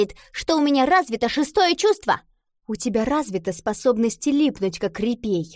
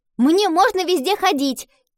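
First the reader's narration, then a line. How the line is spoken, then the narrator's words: Shouting. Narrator (Russian): крикнула Гретхен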